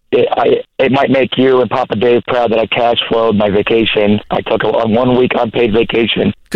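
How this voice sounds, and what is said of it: Shot, worn-out voice. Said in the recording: “Excuse my voice. I shot it at Super Dirt Week.”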